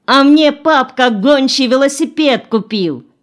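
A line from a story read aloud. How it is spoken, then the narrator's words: Subdued but fairly loud. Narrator (Russian): Катя притихла, но все-таки сказала достаточно громко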